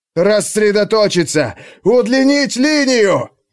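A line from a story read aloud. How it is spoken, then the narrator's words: Breathless shouting. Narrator (Russian): задыхаясь, кричал Лохогос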